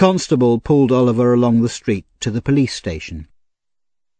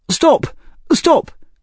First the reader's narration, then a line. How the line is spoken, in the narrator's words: he cried